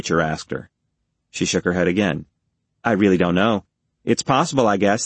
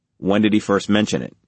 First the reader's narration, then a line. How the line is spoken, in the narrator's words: Reacher asked quickly